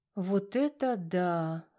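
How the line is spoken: Breathed out, mother. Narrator (Russian): выдохнула Веркина мама

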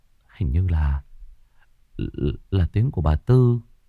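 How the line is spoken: Muttering. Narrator (Vietnamese): Cậu Đức lẩm bẩm

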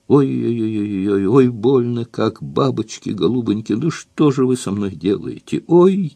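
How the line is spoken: Howling and moaning in pain. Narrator (Russian): Она опять выла, как изломанная собака, стонала, прибормотывала

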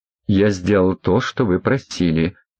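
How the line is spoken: Hissed. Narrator (Russian): прошипел Андрей Михайлович

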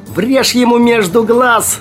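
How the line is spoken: Excited shout, rich contralto. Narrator (Russian): азартно прокричал кто-то сочным контральто

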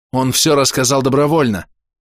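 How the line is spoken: Snorting. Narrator (Russian): Верхим хмыкнул

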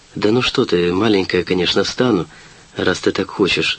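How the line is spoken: Affectionate. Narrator (Russian): сказал я ласково

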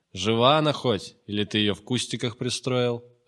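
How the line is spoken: Deliberately loud. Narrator (Russian): викинг говорил как будто нарочито громко

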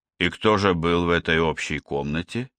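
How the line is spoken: Soft question. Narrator (Russian): все так же мягко спросила Стоун

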